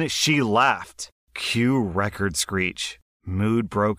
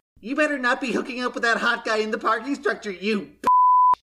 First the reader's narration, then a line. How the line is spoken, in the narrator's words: screeches my name and yells